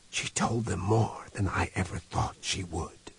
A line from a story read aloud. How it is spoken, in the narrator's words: he whispered